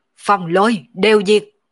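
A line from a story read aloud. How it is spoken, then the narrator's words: Sudden loud shout. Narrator (Vietnamese): Đột nhiên Mộng Vô Nhai quát to một tiếng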